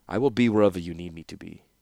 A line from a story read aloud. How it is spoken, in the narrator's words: he said coldly